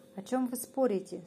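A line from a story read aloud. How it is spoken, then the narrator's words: Plain. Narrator (Russian): спросил зайчишка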